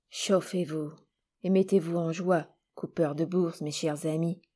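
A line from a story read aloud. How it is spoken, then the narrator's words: Man murmuring. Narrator (French): murmura l'homme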